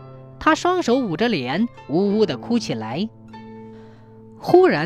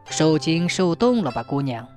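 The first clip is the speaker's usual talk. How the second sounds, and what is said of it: Low, caring old man's voice. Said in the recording (Chinese): “一个又低沉又关切的声音说”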